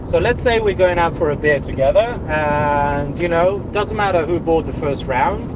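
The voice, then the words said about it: South African accent. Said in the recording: “his mom or his dad, I can't remember which one, is from South Africa. So that's why he has this accent.”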